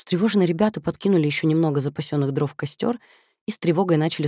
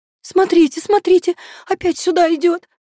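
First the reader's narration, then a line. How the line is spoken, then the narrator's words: Shout. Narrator (Russian): закричала Люба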